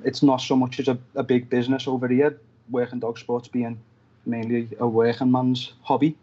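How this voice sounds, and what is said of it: Fast Liverpool English accent. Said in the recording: “my accent ... us people in Liverpool talk fast”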